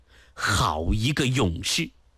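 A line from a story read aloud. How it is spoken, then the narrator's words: Admiring inner thought. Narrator (Chinese): 殷正茂心中赞叹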